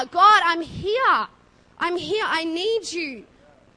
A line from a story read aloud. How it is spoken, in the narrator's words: He had to yell out and cry out